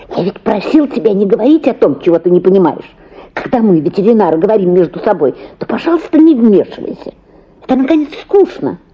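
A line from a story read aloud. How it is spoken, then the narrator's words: Angry hiss. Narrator (Russian): шипел сердито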